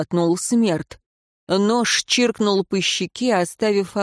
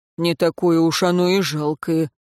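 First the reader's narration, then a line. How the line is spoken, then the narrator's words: Coachman grumbling. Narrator (Russian): буркнул кучер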